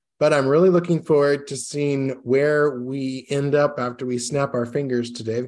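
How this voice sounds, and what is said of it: Hoarse, rough voice. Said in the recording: “I've got a little bit of bronchitis right now. I'm fighting. So my voice is going from bad to worse. I'm going to try not to cough too much”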